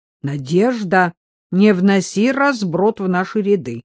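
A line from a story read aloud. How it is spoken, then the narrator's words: Stern. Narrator (Russian): строго заметила Агнесса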